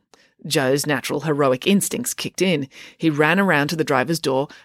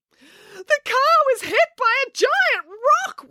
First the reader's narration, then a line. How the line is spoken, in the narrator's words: wailed Daisy